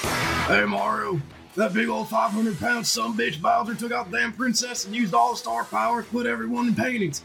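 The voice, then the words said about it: Steve Austin impression. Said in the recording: “he wants me to impersonate this. I cannot impersonate Steve Austin”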